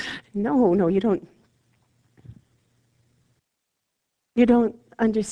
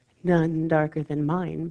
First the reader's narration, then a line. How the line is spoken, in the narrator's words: Bathsheba said